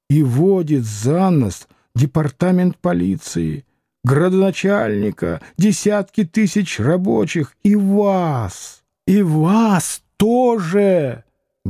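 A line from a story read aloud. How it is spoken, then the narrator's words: Heated hiss. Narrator (Russian): Горячо прошипел он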